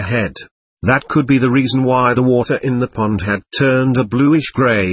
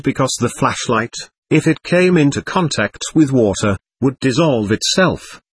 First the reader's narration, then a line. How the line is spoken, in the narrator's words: he said